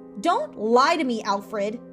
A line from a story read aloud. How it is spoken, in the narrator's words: Julia shrieked